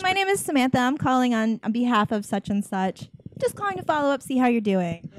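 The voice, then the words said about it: Put-on professional phone voice. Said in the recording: “I don't talk like this. ... You just put on, like, a little bit of a... ... professional voice”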